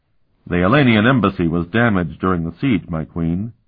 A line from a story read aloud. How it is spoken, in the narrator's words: he said to Alana in a neutral tone